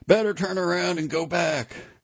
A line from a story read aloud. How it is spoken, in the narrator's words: Kennedy shouted